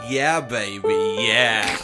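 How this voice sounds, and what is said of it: Austin Powers character impression. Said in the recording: “my Austin Powers impression”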